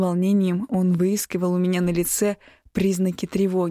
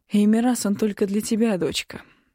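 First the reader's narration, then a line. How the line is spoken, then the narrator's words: Father's gentle correction. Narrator (Russian): мягко поправил отец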